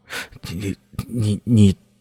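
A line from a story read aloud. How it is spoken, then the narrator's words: Trembling voice. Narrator (Chinese): 柯建轩……颤声说道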